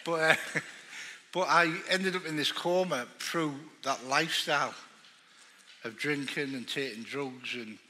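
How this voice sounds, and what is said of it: Northern English accent. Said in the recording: “you can't understand my accent ... I'm just a big fat northerner”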